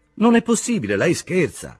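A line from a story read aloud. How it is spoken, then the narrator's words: Exclaimed. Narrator (Italian): esclamò Castorp, come aveva già esclamato in altra occasione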